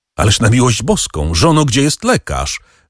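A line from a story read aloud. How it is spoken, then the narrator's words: Call out. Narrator (Polish): zawołał Wilfort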